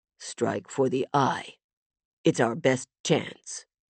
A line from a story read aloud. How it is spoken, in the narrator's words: Rami said quietly